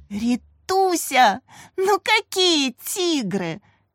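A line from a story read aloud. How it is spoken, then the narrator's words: Laughing. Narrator (Russian): Катя рассмеялась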